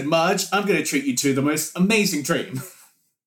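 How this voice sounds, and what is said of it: Imitates another person's voice. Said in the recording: “I've been watching a lot of Gordon Ramsay lately, and that's not what he sounds like ... he's got his phrases. He should have been saying them.”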